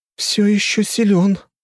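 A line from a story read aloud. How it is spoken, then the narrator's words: Trembling voice. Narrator (Russian): дрожащим голосом сказала она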